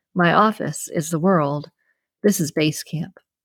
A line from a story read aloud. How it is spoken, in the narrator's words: He chuckled and said